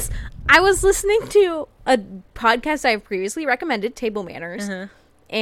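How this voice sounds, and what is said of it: Usual voice. Nothing is said of it.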